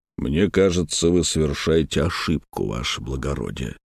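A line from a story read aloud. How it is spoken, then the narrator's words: Through gritted teeth. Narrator (Russian): процедил Витязь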